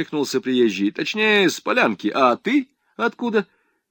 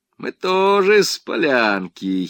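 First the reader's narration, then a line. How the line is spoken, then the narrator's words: Giggling. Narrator (Russian): хихикнул В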